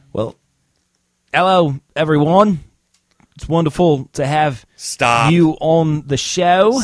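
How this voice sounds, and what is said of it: Poor fake British-sounding accent. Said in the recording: “Are you Australian? ... Is that what accent that is? Australian. ... What is that, French? ... No, it's not good at all. ... Nobody talks British.”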